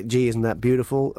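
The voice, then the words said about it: Put-on American accent. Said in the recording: “Sorry, that was an American accent. That was very rude.”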